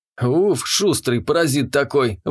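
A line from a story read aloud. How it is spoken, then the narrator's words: Exhaled. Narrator (Russian): выдохнул я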